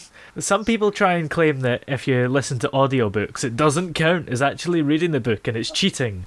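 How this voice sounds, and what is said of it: Lilting Scottish accent. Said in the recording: “lovely little lilting kind of Scottish accent”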